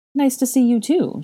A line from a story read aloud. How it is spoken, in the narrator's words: she chuckled